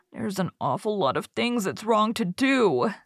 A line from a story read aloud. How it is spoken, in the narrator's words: said Davy with a sigh